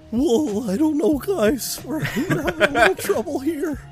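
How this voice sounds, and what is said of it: Shaggy-like cartoon character voice. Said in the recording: “Do the voice of Khan. ... It's like Shaggy, kind of.”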